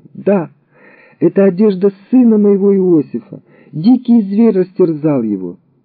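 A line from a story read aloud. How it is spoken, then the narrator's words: Exclamation. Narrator (Russian): Иаков тотчас же узнал одежду своего сына и воскликнул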